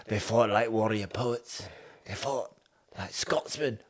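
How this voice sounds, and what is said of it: Weak put-on Scottish accent. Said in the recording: “My Scottish accent is not strong. ... I was trying to do a Scottish accent of an Australian doing a Scottish accent.”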